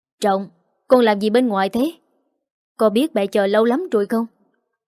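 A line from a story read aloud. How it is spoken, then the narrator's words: Angry voice. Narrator (Vietnamese): một giọng nói chứa đựng sự tức giận vang lên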